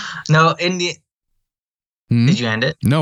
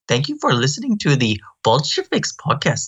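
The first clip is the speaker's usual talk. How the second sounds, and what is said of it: Exaggerated caricatured Indian accent. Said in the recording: “Say bye with an Indian accent ... you actually did a racist caricature of an Indian person ... your Apu shit that you just did”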